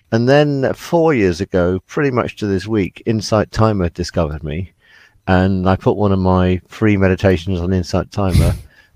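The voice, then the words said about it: British accent. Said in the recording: “People love the British accent”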